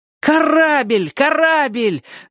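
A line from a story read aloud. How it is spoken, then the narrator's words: Shouting. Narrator (Russian): закричал Оник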